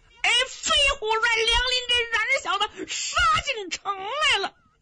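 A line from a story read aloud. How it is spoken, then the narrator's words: Shouting. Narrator (Chinese): 马山威在院子里喊上了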